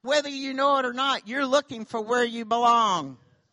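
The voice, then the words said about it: Southern American accent. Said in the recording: “Don't y'all love my southern accent?”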